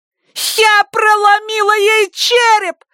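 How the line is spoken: Shrieked. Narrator (Russian): завизжала Вики

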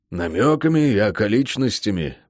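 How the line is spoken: Gruff mutter. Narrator (Russian): буркнул он

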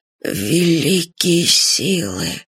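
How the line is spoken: Hoarse. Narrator (Russian): хрипло сказал маршал

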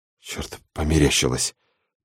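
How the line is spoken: Mumbling. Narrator (Russian): пробормотал Сэмми

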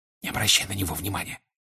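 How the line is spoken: Whispered. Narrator (Russian): шепнул ему Седрик

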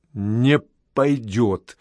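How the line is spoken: Angry muttering. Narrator (Russian): сердито пробормотал я

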